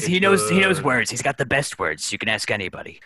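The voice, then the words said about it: Imitates another person's voice. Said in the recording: “good Donald Trump impression”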